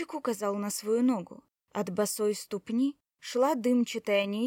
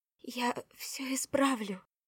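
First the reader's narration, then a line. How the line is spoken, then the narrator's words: Shuddering whisper. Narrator (Russian): содрогнувшись, прошептала Кора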